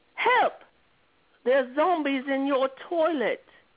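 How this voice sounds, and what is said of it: Put-on English accent. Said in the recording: “I'm gonna try to sound English ... I want to hear you say this quote in an English accent.”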